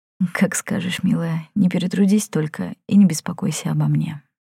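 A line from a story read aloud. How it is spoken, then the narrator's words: Quiet. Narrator (Russian): тихо сказала женщина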